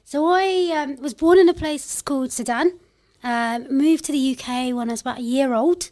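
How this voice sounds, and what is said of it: London accent. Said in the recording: “I'm a proper Londoner, I'd say. You could probably tell from this accent.”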